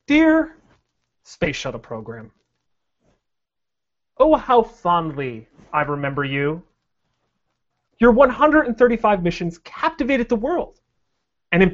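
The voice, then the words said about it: Theatrical letter-reading voice. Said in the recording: “in a letter voice? Because I like all your voices. ... I'm going to do it in a letter voice.”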